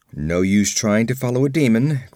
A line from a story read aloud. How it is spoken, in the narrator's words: grunted Conan